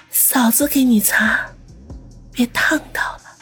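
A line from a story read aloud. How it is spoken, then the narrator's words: Breathy, seductive. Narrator (Chinese): 蓝丽丽媚眼如丝，嘴唇微张，略带喘息的说道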